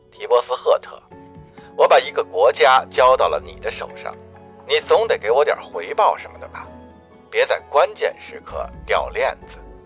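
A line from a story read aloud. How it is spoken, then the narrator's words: Lowered voice after gulp. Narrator (Chinese): 经纪人的声音突然低了下去，仿佛咕噜一声喝了什么，然后才继续说道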